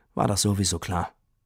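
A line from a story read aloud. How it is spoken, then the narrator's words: Sad. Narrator (German): Und Tini sagte traurig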